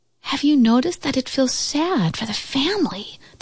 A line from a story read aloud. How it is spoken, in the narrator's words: the squirrel whispered